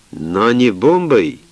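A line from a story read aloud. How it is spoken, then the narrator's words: Irritated interruption. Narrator (Russian): прервал Сталин раздраженно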